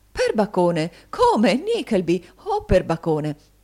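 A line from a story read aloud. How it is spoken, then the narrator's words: Exclaiming. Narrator (Italian): cacciato queste esclamazioni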